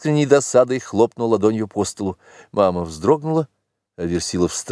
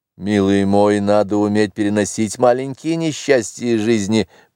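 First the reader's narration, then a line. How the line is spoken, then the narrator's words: Mumbling while smiling. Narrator (Russian): промямлил, улыбаясь Версилов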